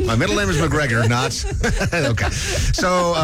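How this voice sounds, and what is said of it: Usual voice. Nothing is said of it.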